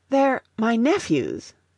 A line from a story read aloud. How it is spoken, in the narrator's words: gasped